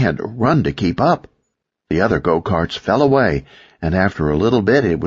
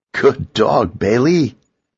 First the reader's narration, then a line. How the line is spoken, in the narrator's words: the boy told me, chuckling